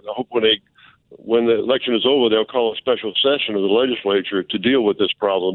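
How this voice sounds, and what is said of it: New Orleans accent. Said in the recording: “I knew that was not a Baton Rouge accent. I knew that was a New Orleans accent.”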